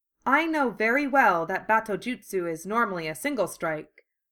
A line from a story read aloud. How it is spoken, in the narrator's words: Batosai said coldly